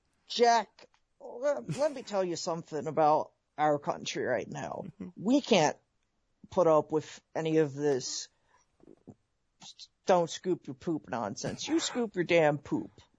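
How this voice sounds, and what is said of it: Imitates another person's voice. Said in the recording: “I'll do funny impersonations ... Can you do Joe Biden?”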